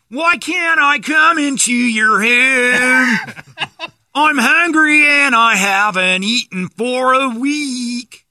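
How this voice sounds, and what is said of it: Exaggerated pop-punk California singing accent. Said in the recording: “That California accent that doesn't exist anywhere but in that genre of music ... That's not English in any world part, just where you sing ... you have to hold your mouth that way to talk like that.”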